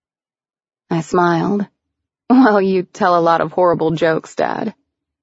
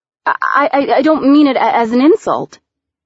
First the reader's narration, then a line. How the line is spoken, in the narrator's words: I stammered